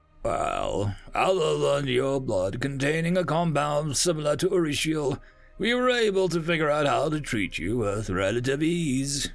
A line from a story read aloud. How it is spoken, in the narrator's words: chuckled